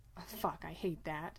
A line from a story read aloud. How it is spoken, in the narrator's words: Dean mutters